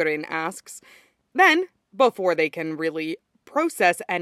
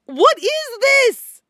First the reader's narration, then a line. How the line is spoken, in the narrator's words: Mikurin howls once he processes their positions, face red as a lobster